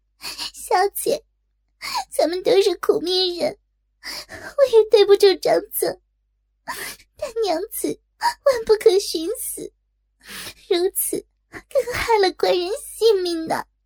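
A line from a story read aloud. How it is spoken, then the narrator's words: Hurried, sobbing. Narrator (Chinese): 锦儿连忙抢上，也抽泣着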